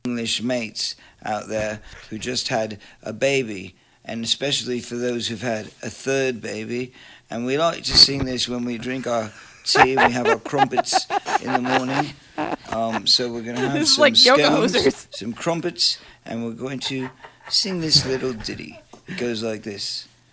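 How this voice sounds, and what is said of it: Put-on British accent. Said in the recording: “he keeps going in and out of that British accent again”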